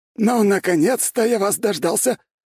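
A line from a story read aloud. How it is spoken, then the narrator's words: Joyful yelling. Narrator (Russian): радостно завопил Градовский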